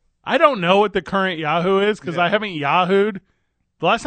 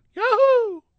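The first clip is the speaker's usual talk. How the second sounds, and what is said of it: Cartoonish video game character voice. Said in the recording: “do a Mario impersonation.”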